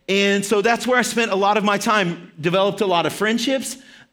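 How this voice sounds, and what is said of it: Arkansas Southern accent. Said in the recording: “That's where I got my accent. So if you ever hear me say a word and you're like, that sounds weird, does it sound like a Texas word? Yeah, it's probably from Arkansas”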